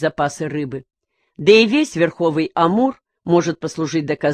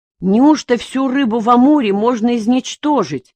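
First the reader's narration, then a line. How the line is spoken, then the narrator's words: Exclaimed. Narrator (Russian): воскликнул он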